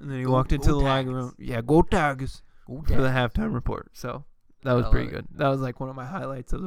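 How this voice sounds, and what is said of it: Usual voice. Nothing is said of it.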